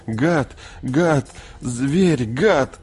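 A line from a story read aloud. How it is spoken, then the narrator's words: Sobbing, repeating. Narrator (Russian): Томми на заднем сиденье всхлипывал, повторяя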